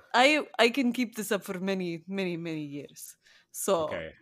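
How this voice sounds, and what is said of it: Put-on Eastern European accent. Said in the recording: “can I do the rest of this in Eastern European accent”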